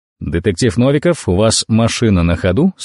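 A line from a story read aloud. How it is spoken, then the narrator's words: Plain question. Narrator (Russian): спросил Джонсон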